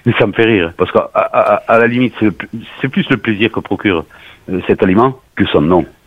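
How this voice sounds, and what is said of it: Southwestern French regional accent. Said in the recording (French): “on me prend pour un fou avec mon accent”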